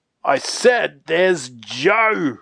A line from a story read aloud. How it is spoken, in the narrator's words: roared What's-his-name